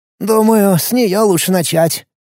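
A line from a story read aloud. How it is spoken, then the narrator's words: Sighing. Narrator (Russian): вздохнул Сиренко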